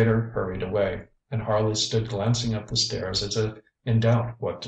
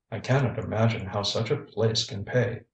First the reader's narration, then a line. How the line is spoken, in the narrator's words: he muttered